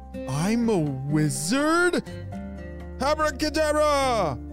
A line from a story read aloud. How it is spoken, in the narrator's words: yelled Easton